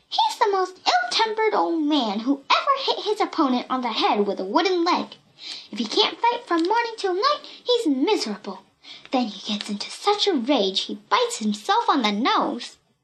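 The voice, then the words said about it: Shrill child's voice. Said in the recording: “cried Pippi in a shrill voice.”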